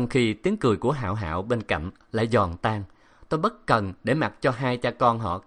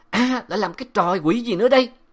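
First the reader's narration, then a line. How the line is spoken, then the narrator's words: Loud shouting. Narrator (Vietnamese): tiếng giáo sư La Nghị hét ầm ĩ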